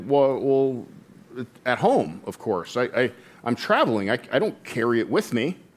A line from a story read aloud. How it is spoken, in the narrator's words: the visitor kind of sputtered a little bit and responded